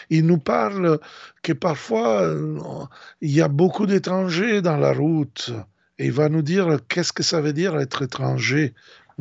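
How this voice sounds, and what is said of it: Strong Italian accent in French. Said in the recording (French): “vous entendez un accent très fort italien”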